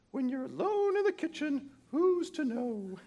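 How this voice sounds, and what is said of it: Poor imitation of Julia Child. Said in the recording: “Sorry, Julia, that's a terrible imitation.”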